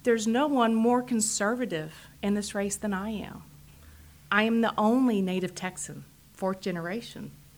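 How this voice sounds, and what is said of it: Texas drawl. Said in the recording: “I think you can tell by my accent, I have a big Texas draw.”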